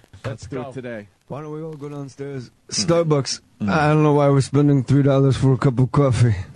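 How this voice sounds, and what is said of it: Imitates a rock singer's voice. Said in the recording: “does the best impression of Eddie Vedder at concerts, talking to the crowd”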